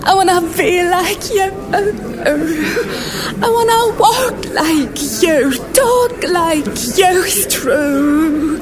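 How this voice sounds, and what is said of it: Sung character voice. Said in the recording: “You really got into character. ... You can do that voice really well.”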